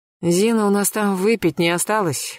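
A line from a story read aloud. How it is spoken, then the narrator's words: Hoarse question. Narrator (Russian): хрипло спросила Наталья Георгиевна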